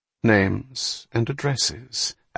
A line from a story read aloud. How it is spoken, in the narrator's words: Ashley answered quietly